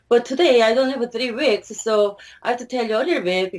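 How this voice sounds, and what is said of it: Non-native English accent. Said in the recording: “it takes 3 weeks for my students to understand my accent ... it is really especially hard to pronounce, to differentiate between face, pace, phrase ... rice or lice”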